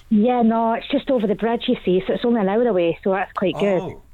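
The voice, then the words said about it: Accent sounding Irish, not local. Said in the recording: “my accent made you think I was further away ... That is not the accent over the bridge from Wales ... that's going to Ireland”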